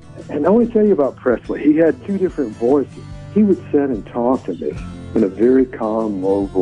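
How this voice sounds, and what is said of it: Usual voice. Nothing is said of it.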